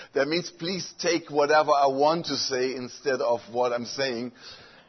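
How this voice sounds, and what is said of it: German accent in English. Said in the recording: “I have a nice German accent ... Gringlish. That means German English”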